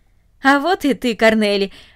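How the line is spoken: Joyful. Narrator (Russian): радостно сказал он

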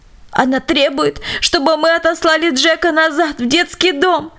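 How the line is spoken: Indignant sobbing. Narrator (Russian): поведала она дочери с возмущенным всхлипыванием

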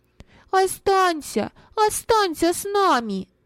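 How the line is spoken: Children shouting in unison. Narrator (Russian): дети в один голос закричали

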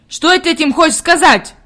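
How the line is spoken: Stern old man asking. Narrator (Russian): строго спросил дедушка

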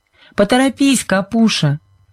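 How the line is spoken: Shout. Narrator (Russian): крикнула Сьюзен

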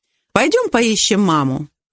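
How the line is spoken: Forced cheerfulness. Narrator (Russian): нарочито весело предложила

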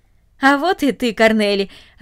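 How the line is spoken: Joyful. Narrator (Russian): радостно сказал он

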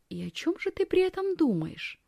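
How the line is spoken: Quiet question. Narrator (Russian): тихо спрашивает Якоб

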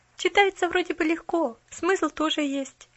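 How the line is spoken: Uncertain inner thought. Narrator (Russian): неуверенно думала про себя

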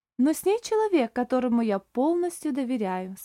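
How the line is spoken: Calm. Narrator (Russian): спокойно сказал Оливер

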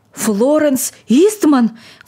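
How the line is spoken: Old man's agitated exclamation. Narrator (Russian): воскликнул старик, отшатываясь в неудержимом волнении

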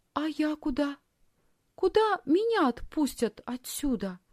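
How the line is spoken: Timid question. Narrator (Russian): робко спросила Лисхин

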